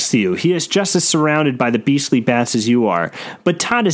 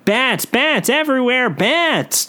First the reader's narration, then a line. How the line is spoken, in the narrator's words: Todd yells